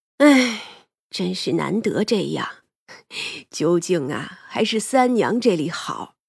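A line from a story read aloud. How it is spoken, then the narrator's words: Sighing. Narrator (Chinese): 吴婶子叹气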